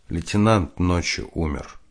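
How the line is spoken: Quiet. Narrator (Russian): прапорщик Дятлов сказал тихо

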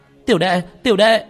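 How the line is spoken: Terrified scream. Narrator (Vietnamese): Vương Khả Khả sợ hãi cả kinh gào lên

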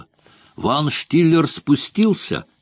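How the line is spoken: Exclaiming. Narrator (Russian): воскликнул Мокко

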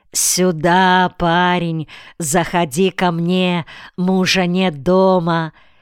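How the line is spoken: Flirtatious shouting. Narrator (Russian): Они заигрывали с беднягой, кричали ему

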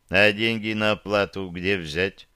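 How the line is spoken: Gloomy question. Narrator (Russian): мрачно спросил я

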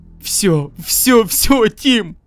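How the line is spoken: Sobbing, shaking with fear. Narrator (Russian): не стесняясь слез, страха, так глубоко въевшегося в мою душу, я рыдала и тряслась

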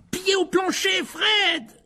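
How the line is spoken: Yelling. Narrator (French): hurla Ron

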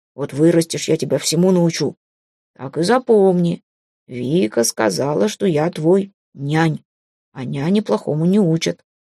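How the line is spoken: Grumbling mutter. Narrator (Russian): ворчливо пробурчал он

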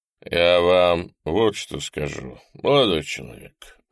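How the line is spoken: More serious tone. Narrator (Russian): начал более серьезным тоном

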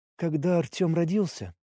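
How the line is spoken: Quiet. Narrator (Russian): сказала она тихо

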